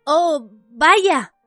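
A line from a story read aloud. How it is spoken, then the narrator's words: Exclaiming. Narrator (Spanish): exclamó Harry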